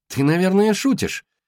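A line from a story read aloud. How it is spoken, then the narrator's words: Exclaimed. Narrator (Russian): воскликнула Стили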